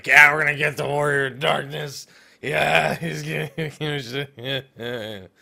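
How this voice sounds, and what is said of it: Slurred drunk-sounding voice. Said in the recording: “your drunk impression.”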